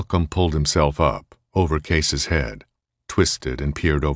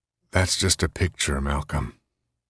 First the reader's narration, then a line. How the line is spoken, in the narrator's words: said wearily